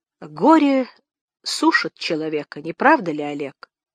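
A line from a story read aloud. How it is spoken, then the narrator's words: Quiet. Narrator (Russian): она сказала тихо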